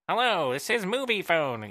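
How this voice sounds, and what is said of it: Poor imitation of phone announcer voice. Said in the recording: “that was a terrible impression.”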